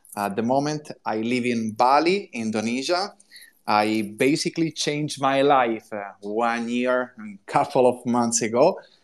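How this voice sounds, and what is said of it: Italian accent. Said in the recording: “As you can hear from my accent, I'm Italian.”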